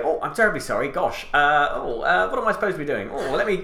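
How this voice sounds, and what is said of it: Dithering Hugh Grant impression. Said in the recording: “I become 30% more Hugh Grant. ... Dithering.”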